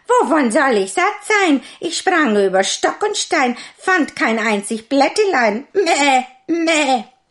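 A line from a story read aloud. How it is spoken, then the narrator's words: Goat calling out. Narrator (German): Die Ziege rief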